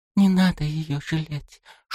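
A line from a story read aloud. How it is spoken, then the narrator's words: Whisper. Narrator (Russian): шепотом произнесла она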